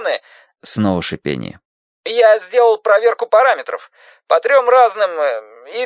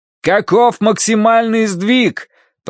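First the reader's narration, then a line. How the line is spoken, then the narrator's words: Shouted into phone. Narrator (Russian): прокричал Данорти в трубку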